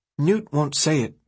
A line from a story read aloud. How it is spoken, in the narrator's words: the boy said